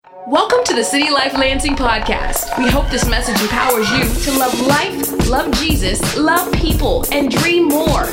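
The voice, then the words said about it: Beautiful DJ radio voice. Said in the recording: “She's got the DJ radio voice that just sounds so beautiful”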